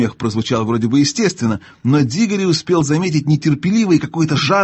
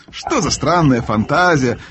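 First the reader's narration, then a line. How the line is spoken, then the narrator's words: Laughing. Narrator (Russian): рассмеялся дядя Эндрю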